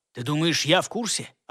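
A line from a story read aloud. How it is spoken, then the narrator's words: Snapping retort. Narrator (Russian): огрызнулся на него тот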